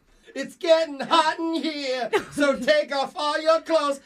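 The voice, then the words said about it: Singing in falsetto. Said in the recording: “sing falsetto”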